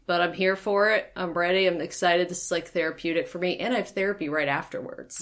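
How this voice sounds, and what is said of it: Flat, monotone voice. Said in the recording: “My voice is probably going to sound a little monotone. I get like some Daria vibes when I'm depressed. Like my voice just stays at the same level.”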